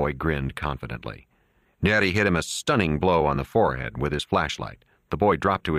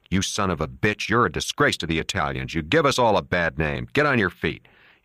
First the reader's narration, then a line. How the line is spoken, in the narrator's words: Neri said to him harshly